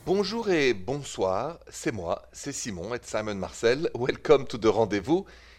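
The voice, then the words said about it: French accent. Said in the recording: “the accent is French, straight from Paris”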